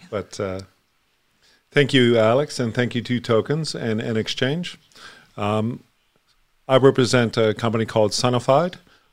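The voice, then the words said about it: Australian accent blended with Canadian. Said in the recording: “Show me that Aussie accent... It's kind of mashed up as Canadian now.”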